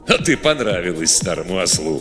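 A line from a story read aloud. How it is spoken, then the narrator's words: Chuckling. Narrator (Russian): хохотнул Готтер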